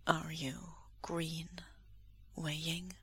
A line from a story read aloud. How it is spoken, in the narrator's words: Lan Wangji asks softly